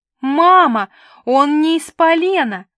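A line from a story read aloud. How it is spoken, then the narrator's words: Sudden yell. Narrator (Russian): немедленно завопила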